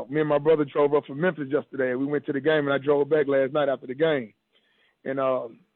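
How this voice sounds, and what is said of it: Hoarse, strained voice. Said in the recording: “my voice hoarse, man, because we were so live last night”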